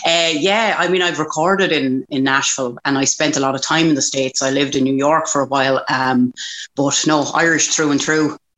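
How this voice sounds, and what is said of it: Irish accent. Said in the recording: “such an Irish accent ... I sound like Bridie from down the country”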